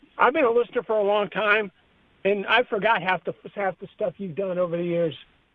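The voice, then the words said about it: Hoarse, strained voice. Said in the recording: “Are you out of breath? ... I'm just hoarse. ... hoarse”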